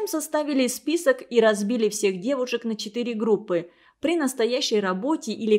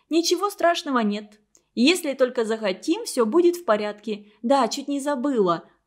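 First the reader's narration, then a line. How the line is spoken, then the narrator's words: Exclamation. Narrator (Russian): воскликнула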